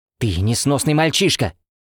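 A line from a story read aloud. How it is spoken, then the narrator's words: Mock-angry exclamation. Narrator (Russian): воскликнула она, притворяясь сердитой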